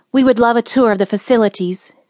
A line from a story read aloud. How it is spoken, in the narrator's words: said curtly, obviously wanting to spend as little time on the farm as possible